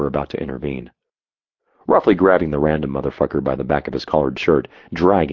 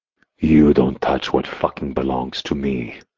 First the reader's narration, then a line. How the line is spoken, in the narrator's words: I growled